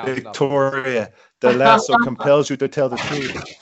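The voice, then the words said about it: Imitates another person's voice. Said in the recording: “that bad Gal Gadot impression ... See, that was better. I didn't make her Jamaican that time.”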